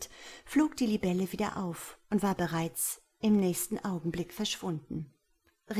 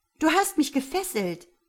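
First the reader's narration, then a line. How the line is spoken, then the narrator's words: Accusing woman's call. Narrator (German): rief sie anklagend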